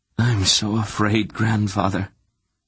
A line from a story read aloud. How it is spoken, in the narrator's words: Geryon confessed, his voice anguished